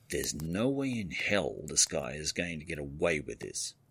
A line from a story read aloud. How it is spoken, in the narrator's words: said through clenched teeth